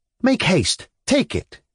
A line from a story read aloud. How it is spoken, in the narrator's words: she cried